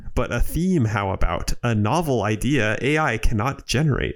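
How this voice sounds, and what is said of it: Bad Yoda impression. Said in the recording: “in a terrible Yoda accent”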